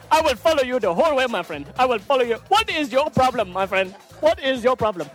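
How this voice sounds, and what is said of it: Put-on African accent. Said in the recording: “my African accent ... You remember that accent”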